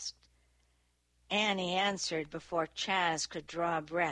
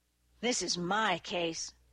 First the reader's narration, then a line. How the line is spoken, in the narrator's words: Stokes grumbled